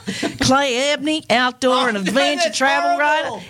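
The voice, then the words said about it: Poorly done put-on American accent. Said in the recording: “I love your accent. Of all the American accents, I love that one. And I think, because I'm pretty hopeless at accents, I think I can nail it. ... Oh, that's horrible. ... I thought I did that accent really well.”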